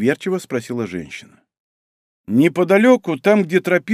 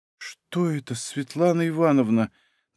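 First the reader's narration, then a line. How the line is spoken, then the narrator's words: Trembling question. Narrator (Russian): дрожащим голосом спросила Неля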